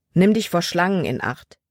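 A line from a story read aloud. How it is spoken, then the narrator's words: Plain. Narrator (German): sagte er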